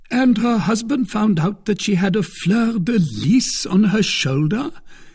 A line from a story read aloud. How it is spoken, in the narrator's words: cried Porthos